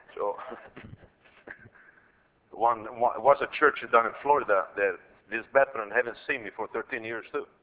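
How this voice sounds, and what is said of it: Speaks with a foreign accent. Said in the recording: “the way I speak, that I know really maybe bothers you, my accent ... Anywhere I go, I got an accent.”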